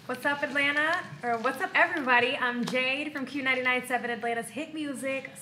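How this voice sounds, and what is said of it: Polished radio announcer voice. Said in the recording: “you got a radio voice for real ... it's so polished”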